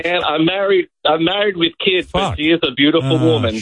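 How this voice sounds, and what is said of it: Australian accent. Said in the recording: “I'm listening to the accent... I do love an Australian accent.”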